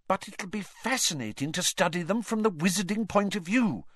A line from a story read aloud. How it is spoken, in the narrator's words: said Hermione earnestly